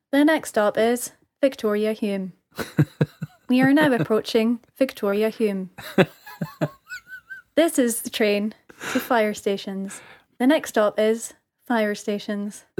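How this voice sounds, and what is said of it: Mimics a train announcement voice. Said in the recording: “Are you the person who does that voice?”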